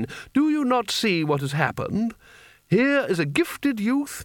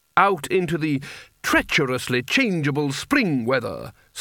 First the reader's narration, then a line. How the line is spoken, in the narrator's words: snarled Spelter